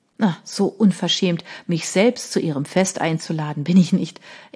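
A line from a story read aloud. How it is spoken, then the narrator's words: Laughing reply. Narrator (German): entgegnete lachend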